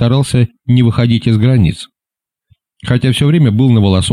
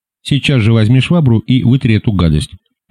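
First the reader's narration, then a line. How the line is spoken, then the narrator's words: Stern command. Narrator (Russian): приказал самым строгим тоном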